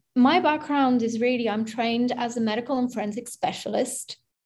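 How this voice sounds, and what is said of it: Slight British accent. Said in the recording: “I got a little bit of a British accent.”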